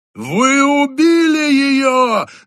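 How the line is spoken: Screaming. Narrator (Russian): завопил он

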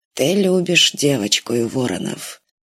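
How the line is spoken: Muttered. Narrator (Russian): пробормотал Кович

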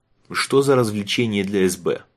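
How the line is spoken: Short laugh. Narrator (Russian): Айвен хохотнул

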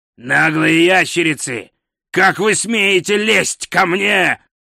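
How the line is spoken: Growling. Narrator (Russian): прорычал он

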